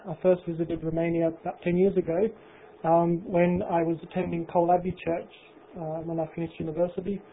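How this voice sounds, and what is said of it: English-sounding accent. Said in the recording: “my accent is very, very pommy, he said”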